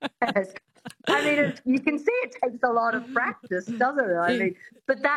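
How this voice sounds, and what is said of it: Usual voice. Nothing is said of it.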